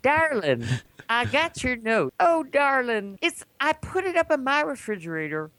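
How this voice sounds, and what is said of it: Put-on Southern US accent. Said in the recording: “Now he's from Little Rock. It's got a southern accent.”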